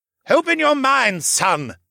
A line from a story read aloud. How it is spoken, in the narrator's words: shouted